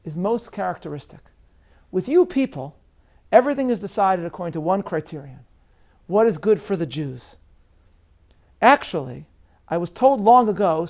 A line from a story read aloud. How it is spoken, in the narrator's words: said this cellmate